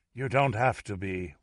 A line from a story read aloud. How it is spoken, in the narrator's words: whispered the dying Mouchestine